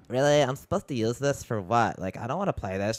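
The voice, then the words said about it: Mocking girly voice. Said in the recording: “your old girl voice... That's your Becky voice”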